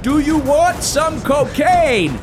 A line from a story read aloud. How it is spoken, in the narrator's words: yelled